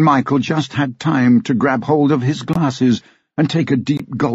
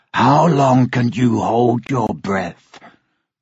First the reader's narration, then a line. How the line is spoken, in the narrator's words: The dragon growled